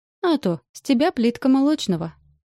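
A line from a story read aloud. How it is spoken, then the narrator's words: Giggling friend. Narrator (Russian): хихикает подруга, добавляет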